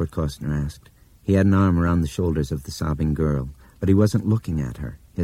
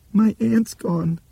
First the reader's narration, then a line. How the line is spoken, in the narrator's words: the little girl sobbed